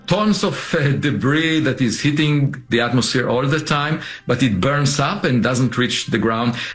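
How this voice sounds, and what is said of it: Noticeable accent. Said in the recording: “he has a wonderful accent”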